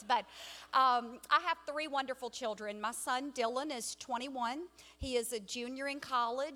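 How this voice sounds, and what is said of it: Southern American accent. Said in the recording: “I had no choice but to have this cute little southern accent that you hear ... the more excited that I become, the more southern I will become”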